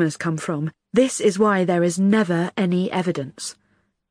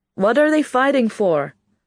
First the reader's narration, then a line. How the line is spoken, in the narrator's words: I shout in Ferret's ears